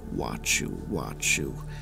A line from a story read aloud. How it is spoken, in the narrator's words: She said in a wet and masculine tone